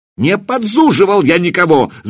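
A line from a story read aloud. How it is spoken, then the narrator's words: Shouted. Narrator (Russian): закричал Семирад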